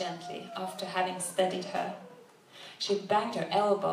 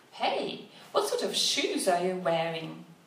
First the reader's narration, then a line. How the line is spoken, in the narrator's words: he suddenly exclaimed